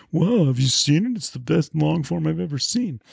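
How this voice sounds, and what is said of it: Imitates another person's voice. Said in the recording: “impersonating my friends”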